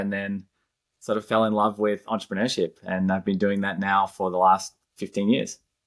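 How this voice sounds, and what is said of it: Slight Australian accent. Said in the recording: “I seem to detect in your accent a hint of Australia.”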